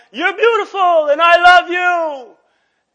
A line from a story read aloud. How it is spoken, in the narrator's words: She yelled